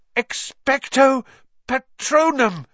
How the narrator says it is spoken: he gasped

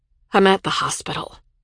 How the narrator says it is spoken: she said, her voice dull

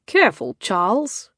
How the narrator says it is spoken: Cedric warned, but his tone was teasing

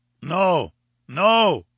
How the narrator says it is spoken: he cried

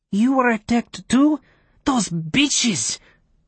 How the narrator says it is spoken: spat

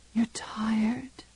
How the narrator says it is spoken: she whispered

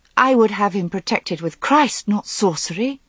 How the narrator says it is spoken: said Guinevere hotly

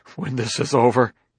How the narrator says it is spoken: he began, but choked into inarticulacy

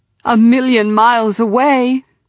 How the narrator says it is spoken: cried Elena

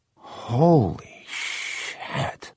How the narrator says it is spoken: was whispering

